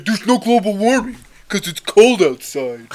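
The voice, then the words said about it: Imitates another person's voice. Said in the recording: “is that your Trump impression? ... That's my Trump impression. ... It's not bad. ... That wasn't horrible.”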